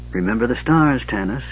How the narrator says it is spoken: he murmured

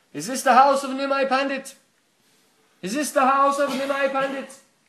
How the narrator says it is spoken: About 20 times he called out

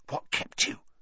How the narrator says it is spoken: Ron hissed

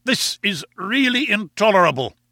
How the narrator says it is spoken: cried

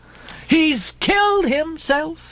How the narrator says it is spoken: she cried

